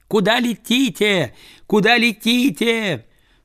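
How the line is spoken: Shout from window. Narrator (Russian): Работница, сидевшая ближе всех к окну, высунулась оттуда, закричала

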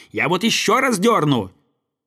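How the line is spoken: Angry boy's shout. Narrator (Russian): Слова эти рассердили мальчика … закричав

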